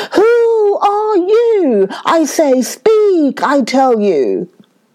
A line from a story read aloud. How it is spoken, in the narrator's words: Simba roared out angrily